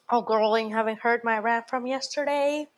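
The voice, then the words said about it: Slight Southern twang. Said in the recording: “I took like a southern little twang there”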